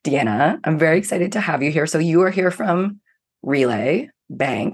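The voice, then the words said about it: Sick-sounding, strained voice. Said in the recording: “I do sound deathly ill ... my voice has decided to just, I don't know, take a half vacation today ... not all my voice is here”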